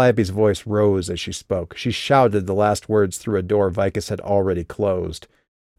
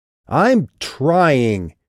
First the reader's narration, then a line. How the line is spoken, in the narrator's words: shouted